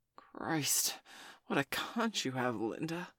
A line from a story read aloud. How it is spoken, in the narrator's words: Frank gasped